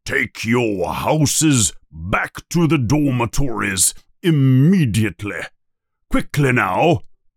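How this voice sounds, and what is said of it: Stern commanding voice. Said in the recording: “in a stern voice”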